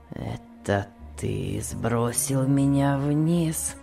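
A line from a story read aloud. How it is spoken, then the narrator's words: Weak voice. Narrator (Russian): спросил Том слабым голосом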